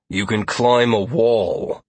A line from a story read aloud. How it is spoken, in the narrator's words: Lazarus grunted, unimpressed by what he had heard so far